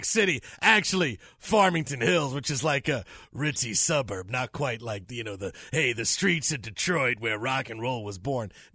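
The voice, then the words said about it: Raspy put-on Detroit voice. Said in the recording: “is that a smoking filter that you put on your voice right there? ... It's my Detroit voice that I put on. It's rock and roll.”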